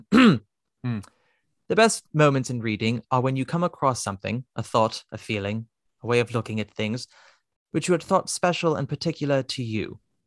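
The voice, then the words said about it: Put-on English accent. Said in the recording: “my English accent”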